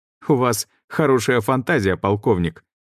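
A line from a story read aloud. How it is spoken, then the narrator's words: Laughing. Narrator (Russian): рассмеялся Глеб Захарович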